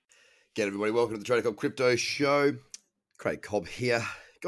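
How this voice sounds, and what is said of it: Congested nasal voice. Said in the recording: “you can probably hear it in my voice. I sound like a literal walking nose. Smashed down by a really bad cold”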